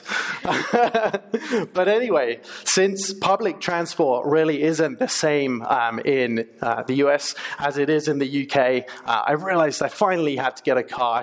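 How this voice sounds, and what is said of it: English accent. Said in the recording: “As you might be able to tell from my accent, I'm from England, not Australia.”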